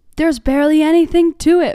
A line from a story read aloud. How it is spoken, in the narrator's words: exclaimed